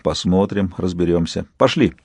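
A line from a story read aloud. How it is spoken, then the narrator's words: Quiet. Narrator (Russian): Сказал негромко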